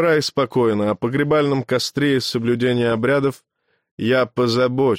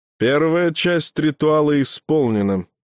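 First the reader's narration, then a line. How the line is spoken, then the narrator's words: Flat lifeless tone. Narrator (Russian): прежним неживым тоном констатировал дважды рожденный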